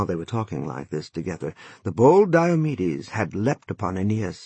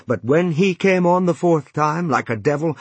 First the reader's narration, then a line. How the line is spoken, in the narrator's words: Apollo shouted at him with a loud cry